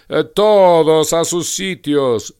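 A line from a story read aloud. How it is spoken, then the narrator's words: Thunderous shout. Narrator (Spanish): gritó la reina con voz de trueno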